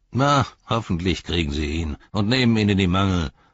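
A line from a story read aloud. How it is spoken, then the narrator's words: Grumbled. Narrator (German): brummte der Fährtensucher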